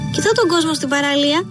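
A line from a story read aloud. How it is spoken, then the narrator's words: Shouted. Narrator (Greek): φώναξε ο Τσαμπίκος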